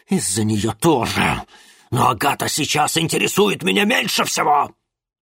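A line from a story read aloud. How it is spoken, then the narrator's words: Growled. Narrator (Russian): прорычал Ипполит Германович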